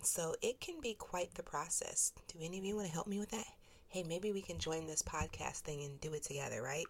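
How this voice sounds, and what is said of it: Voice slightly off from cold. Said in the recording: “my voice is a little off this week ... battling a nice little cold ... that little last bit of gunk ... Your nose is constantly running. You're still coughing ... I sound a little different this week”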